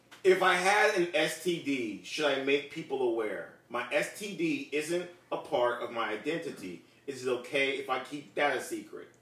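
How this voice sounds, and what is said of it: Put-on Spanish accent. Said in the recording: “Say it with a Spanish accent.”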